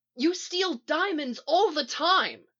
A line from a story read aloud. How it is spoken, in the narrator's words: Cisco shouts